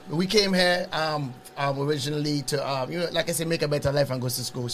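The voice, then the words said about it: Speaks with a foreign accent. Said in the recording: “the accent probably got you ... he never talked to me in his accent until later”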